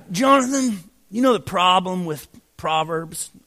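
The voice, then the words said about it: Impression of a friend's voice. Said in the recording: “my Randy Harris impression”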